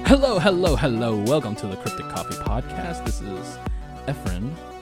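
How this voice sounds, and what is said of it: Radio announcer style voice. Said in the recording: “Why do I sound like a radio announcer today?”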